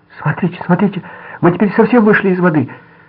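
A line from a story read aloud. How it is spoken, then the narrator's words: Cry out. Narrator (Russian): она вскрикнула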